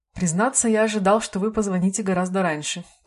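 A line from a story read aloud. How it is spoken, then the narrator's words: Plain. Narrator (Russian): ответил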